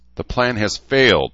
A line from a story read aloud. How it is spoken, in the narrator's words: Paul snapped